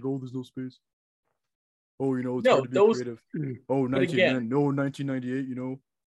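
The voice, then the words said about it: Impression of Ken Holland. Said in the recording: “you could have a pretty decent Ken Holland impersonation ... It's an almost bad Babcock ... It's like a three-quarter Babcock with like something else”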